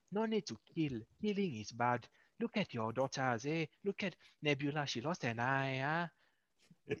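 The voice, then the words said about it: Well-done put-on accent. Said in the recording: “He's actually really good. I have issues doing that accent. That was really good.”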